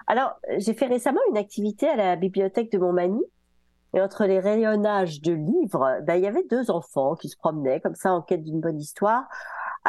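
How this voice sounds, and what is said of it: Slightly hoarse, duck-like cold voice. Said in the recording (French): “j'ai une petite voix de canard un peu, des rhumes”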